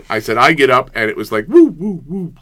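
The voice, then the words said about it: Imitates arcade game sound effect. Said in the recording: “that was a really ... impression ... Pac-Man getting shut down”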